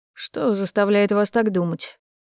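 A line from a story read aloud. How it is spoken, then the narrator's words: Cold, disdainful question. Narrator (Russian): Холодно поинтересовался этот хам, поджимая красивые губы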